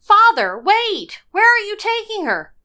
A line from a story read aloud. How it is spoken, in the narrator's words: Behind me, cried